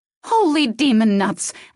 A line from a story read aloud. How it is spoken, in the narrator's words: Alex shrieked as coffee sloshed out of her cup and onto the front of her shirt